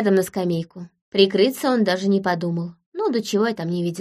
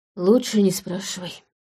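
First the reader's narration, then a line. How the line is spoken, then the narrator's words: Mumbled through chattering teeth. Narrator (Russian): пробормотал Манфред, стуча зубами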